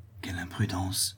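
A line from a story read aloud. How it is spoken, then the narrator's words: Young woman murmuring. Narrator (French): murmura la jeune femme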